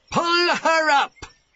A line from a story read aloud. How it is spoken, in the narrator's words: he shouted